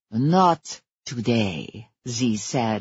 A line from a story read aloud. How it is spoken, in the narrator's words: his voice a purr of menace